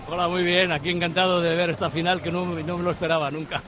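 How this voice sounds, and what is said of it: Spanish spoken with French accent. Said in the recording (Spanish): “con acento francés”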